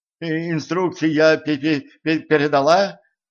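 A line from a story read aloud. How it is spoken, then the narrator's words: Trembling babble. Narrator (Russian): дрожащим голоском пролепетала секретарша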